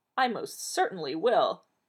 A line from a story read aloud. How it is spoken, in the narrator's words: said firmly